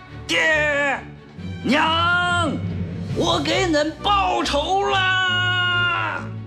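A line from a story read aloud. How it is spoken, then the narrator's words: Hoarse roar. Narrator (Chinese): 嘶哑的吼叫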